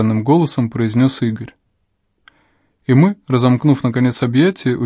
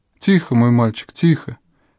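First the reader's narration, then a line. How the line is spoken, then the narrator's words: Sobbing, consoling reply. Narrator (Russian): Тоже всхлипывая, говорила в ответ Рита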